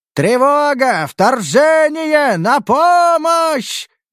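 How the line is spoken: Alarmed full-throated yell. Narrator (Russian): заорал дуэргар во всю глотку, поняв, что попал в западню

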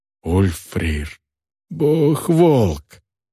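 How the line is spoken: Breathless exhale. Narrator (Russian): выдохнула Крака

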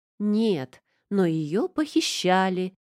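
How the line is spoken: Joyful announcement. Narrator (Russian): радостно сообщила

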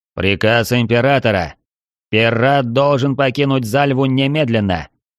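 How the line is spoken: Metallic guard's voice. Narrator (Russian): Металлическим голосом произнес один из стражей

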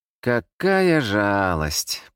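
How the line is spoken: Drawling huntress. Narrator (Russian): протянула охотница

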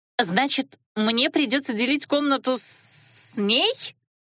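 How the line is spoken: Indignant healer. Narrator (Russian): Целительница возмущенно

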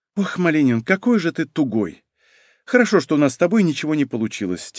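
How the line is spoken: Heavy sigh. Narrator (Russian): тяжело вздохнула женщина

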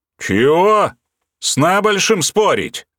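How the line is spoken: Roared. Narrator (Russian): взревел тот

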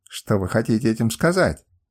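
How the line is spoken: Snapping retort. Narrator (Russian): огрызнулась она

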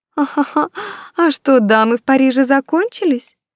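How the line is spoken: Seamstresses' good-natured chirping, laughter. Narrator (Russian): Так добродушно чирикали и хохотали швеи

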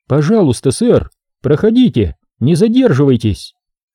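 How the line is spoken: Peaceable friendly tone. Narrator (Russian): сказала она весьма миролюбивым тоном

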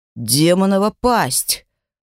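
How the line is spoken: Hissing. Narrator (Russian): прошипел Драк

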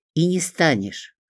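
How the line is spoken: Stern reply. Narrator (Russian): строго откликнулась я

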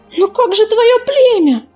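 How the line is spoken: Exclaiming. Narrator (Russian): воскликнула Белочка

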